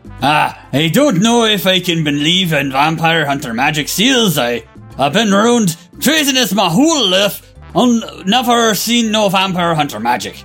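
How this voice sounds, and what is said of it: Put-on Scottish accent. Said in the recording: “So you've been practicing your Scottish accent, have you? ... Practice more.”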